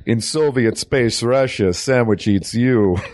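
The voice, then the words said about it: Bad put-on Russian accent. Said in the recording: “That was a bad Russian accent that I did.”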